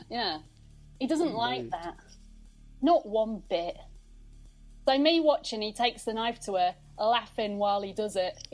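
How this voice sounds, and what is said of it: Lincolnshire English accent. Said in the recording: “it kind of works for my accent a little bit ... Why is it fitting Lincolnshire accent so well?”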